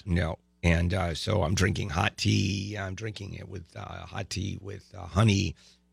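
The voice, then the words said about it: Hoarse, ragged voice. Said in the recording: “if it gets too ragged ... my voice is out”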